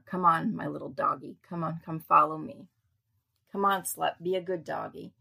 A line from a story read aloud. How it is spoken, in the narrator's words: Miss Summer's friend said, laughing